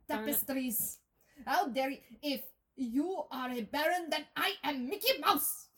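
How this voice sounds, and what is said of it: Attempted Scottish accent sounding German. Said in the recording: “That's Scottish. ... That's more German. Damn it.”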